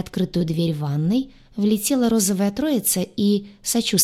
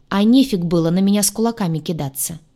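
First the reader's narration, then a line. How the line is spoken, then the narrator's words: Snapping retort. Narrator (Russian): огрызнулась я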